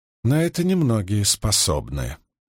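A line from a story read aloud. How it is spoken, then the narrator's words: Calm admission. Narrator (Russian): спокойно признала Авиенда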